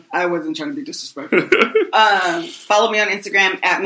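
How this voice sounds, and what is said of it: Usual voice. Nothing is said of it.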